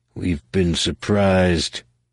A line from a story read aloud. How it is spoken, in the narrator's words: muttered